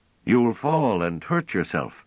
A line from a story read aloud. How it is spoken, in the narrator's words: called out anxiously